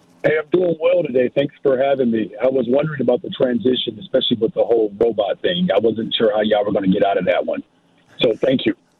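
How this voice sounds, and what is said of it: Voice sounds electronic. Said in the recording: “Your voice sounds a little electronic here”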